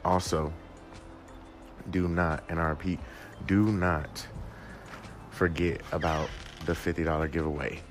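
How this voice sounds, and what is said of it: Tired, slightly raspy voice. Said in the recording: “I'm exhausted right now ... I've been up almost all night ... my voice is a little raspy”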